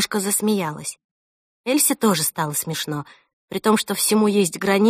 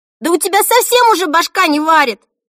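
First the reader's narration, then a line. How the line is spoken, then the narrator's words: Shouted. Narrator (Russian): закричала Эльса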